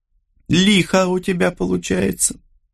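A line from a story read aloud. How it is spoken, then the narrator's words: Chuckling. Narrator (Russian): Гарольд хохотнул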